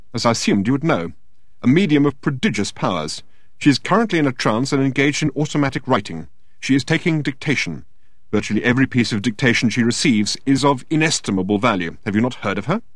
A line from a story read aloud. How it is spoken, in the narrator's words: said Standish a little crossly